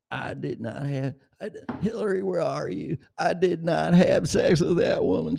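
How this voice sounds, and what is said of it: Imitates another person's voice. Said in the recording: “Impersonations are.”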